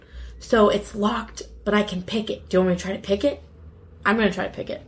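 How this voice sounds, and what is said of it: Whispering. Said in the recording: “I'm just whispering down to him.”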